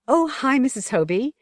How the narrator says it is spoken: in a bright voice

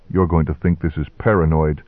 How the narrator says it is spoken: said quietly

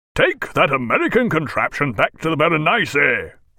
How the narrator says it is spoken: roared Jack, halfway down the ratlins

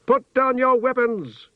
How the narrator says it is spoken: he shouted in a voice that made the towers ring

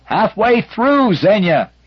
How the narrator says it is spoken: shouted

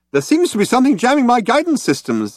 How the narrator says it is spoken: explained the computer brightly

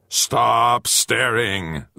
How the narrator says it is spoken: Zagama roared again

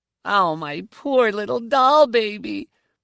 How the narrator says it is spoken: she cried out

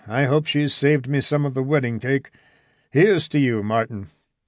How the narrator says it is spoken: sighed Norden

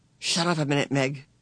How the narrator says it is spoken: Calvin whispered

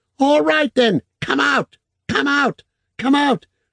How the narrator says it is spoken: screaming in a thin voice like a bird

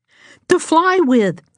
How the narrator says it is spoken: Jane shouted

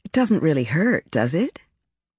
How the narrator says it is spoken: I said in a joking tone

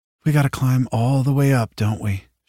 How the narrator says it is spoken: sighed

